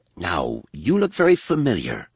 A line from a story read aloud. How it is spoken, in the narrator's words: he rasped